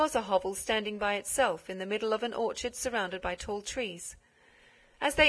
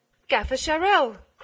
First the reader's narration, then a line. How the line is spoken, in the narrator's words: cried the mayor